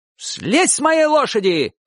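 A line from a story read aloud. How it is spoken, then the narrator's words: Old man shouting in Abkhaz. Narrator (Russian): крикнул дедушка по-абхазски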